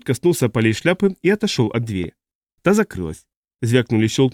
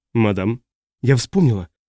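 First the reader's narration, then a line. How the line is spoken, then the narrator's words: Trembling voice. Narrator (Russian): произнесла та дрожащим голосом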